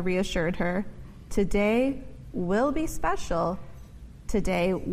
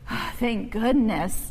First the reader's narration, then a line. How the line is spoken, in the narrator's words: Ava's mother sighed in relief